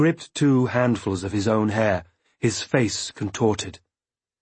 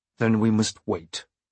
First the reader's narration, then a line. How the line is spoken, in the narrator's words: Through gritted teeth, I said